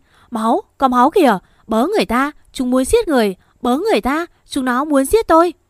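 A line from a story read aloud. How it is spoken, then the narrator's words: Terrified screaming. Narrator (Vietnamese): À gào lên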